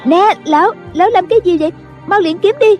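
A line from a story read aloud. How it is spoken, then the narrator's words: Girl's panicked scream. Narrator (Vietnamese): tiếng một thiếu nữ la lên thất thanh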